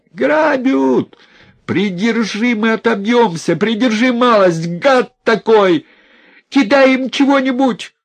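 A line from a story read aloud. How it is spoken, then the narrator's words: Shouted. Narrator (Russian): крикнул Наум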